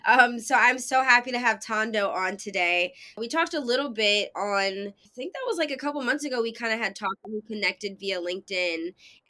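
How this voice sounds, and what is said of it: Slightly nasal, congested voice. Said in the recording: “I sound a little nasally ... Allergies are kicking my ass today”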